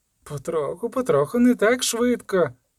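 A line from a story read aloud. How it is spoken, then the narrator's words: Sincere laughter. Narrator (Ukrainian): засміялася вона щиро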